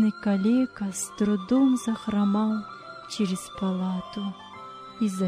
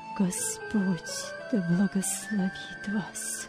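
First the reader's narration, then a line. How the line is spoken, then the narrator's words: Strained whisper. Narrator (Russian): Вилли сдавленным голосом прошептал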